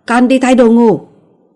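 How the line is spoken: Loud evasive shout. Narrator (Vietnamese): Trần Nhiễm giấu đầu hở đuôi hét to

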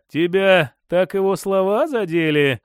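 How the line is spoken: Lazy question. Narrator (Russian): лениво спросил Моржов

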